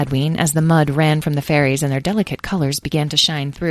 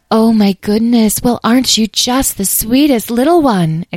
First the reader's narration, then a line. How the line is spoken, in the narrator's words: exclaimed Dahlia